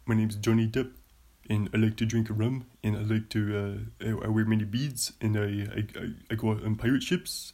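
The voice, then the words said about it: Imitates another person's voice. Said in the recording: “my favorite impression is this guy, this impression right here. It's a very hard one. It's a hard impression, but it's Johnny Depp ... that's not very good ... Mine sounds like Eddie Vedder.”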